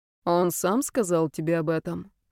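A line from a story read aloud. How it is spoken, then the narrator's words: Calm. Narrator (Russian): спокойно сообщил Меркурий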